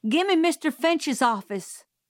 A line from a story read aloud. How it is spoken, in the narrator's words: shouted